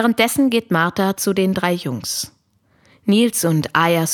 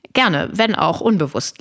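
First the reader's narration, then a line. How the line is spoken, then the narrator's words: Laughing. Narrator (German): lacht Maslum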